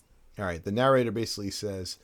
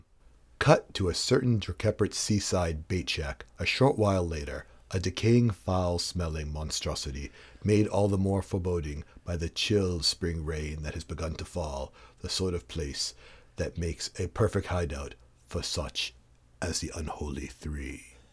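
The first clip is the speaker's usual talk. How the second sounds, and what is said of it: Dramatic narrator voice. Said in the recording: “I'll just do the narrator voice.”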